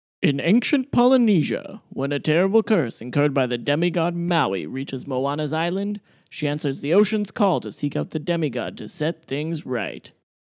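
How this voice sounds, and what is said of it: Dramatic announcer voice. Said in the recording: “my announcer voice ... Trying to bring some characters to this.”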